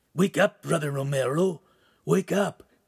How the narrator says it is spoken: a croaking voice say

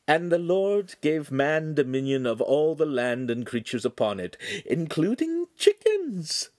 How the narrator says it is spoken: she laughed

